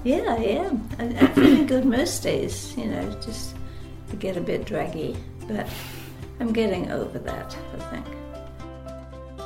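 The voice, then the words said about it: British London accent. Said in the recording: “did you notice her accent? ... she grew up in London, England”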